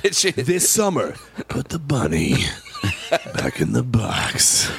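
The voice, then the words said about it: Dramatic movie trailer voice. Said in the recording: “Great movie trailer voice.”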